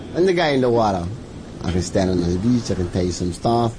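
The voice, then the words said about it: Thick Hawaiian accent, clipped words. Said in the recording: “some Hawaiians, speak with a thick accent, dropping off parts of words, using other words I'd never heard.”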